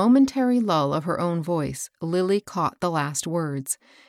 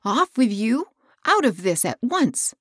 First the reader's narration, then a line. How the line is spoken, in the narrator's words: cried Hilda